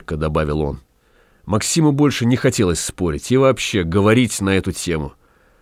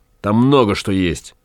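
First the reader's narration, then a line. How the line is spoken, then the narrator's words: Angry. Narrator (Russian): сказал Гай зло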